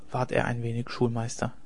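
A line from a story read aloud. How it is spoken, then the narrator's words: Quiet. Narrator (German): sagte der Deichgraf leise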